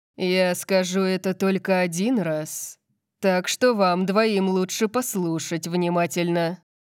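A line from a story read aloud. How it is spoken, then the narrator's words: Purring. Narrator (Russian): промурлыкал Лайонел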